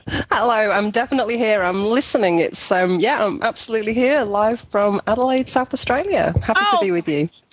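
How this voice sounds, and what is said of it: Mixed English and Australian accent. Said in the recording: “I love that accent ... It's a bit of a mixture, because I'm from England originally ... with the Australian and English accent”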